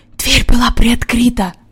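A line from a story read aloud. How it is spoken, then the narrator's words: Whisper. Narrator (Russian): прошептал Джон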